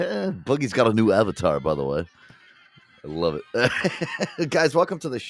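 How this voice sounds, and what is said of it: Usual voice. Nothing is said of it.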